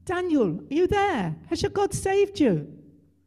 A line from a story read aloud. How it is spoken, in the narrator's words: The king called out